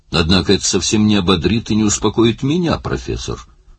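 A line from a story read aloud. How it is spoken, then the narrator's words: Cold remark. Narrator (Russian): холодно заметил Лин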